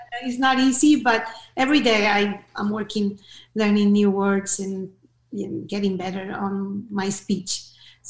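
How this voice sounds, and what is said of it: Noticeable foreign accent in English. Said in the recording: “you have to get your accent needs to be gone. You need to reduce your accent ... pronunciation, accent ... why I have an accent”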